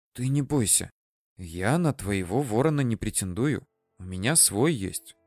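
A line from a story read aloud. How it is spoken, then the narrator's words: Whispered promise. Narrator (Russian): шепотом Руся пообещала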